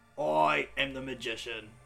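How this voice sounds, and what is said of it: Theatrical magician character voice. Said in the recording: “Love that voice you've given him. It's beautiful. ... my magician voice”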